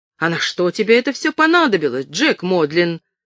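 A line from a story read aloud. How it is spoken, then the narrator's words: Indignant exclamation. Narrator (Russian): возмущенно воскликнула хозяйка Эмма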